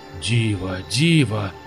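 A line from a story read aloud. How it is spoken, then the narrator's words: Enchanted muttering. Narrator (Russian): зачарованно бормотал Иван Максимович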